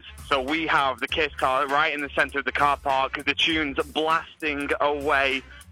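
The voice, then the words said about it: British accent. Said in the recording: “your accent is just so great ... How was my British accent, by the way? Was it terrible from a British guy?”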